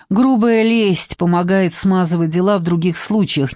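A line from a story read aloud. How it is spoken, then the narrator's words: Displeased grumble. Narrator (Russian): недовольно буркнул Вася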